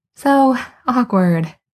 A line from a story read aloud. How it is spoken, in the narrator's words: with a strangled little laugh